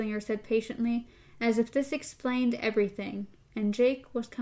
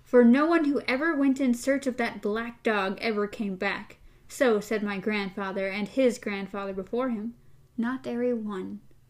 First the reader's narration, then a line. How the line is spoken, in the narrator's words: she cried